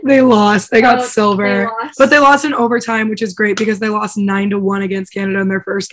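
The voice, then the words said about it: Hoarse, worn-out voice. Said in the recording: “My voice is so shot. I'm so sorry to everyone who has to listen to this. ... I was sick”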